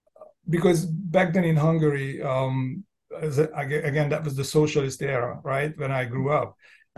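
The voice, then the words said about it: Foreign accent. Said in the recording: “My accent”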